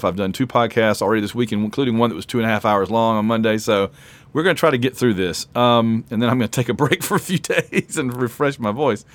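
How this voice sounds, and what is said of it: Rough, strained voice. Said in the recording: “my voice is probably going to start giving out. It already sounds a little rough ... my voice is already pretty rough”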